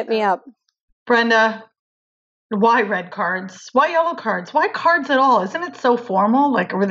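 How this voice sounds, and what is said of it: Usual voice. Nothing is said of it.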